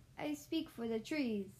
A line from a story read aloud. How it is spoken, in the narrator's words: cried the Lorax